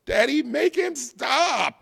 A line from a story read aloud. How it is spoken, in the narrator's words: screamed Delfina